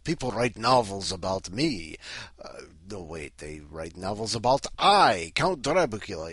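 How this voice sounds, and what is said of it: Count Dracula accent. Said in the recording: “Everyone's used to me saying with my accent, I, Count Dracula. No, it doesn't mean that I'm like a bumpkin from Romania”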